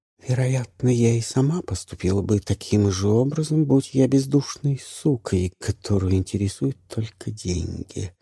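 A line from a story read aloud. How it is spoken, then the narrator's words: Soft. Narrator (Russian): мягко сказала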